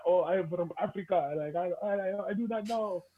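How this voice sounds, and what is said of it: Put-on African accent. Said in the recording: “Accent”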